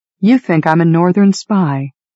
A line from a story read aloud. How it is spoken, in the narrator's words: I sighed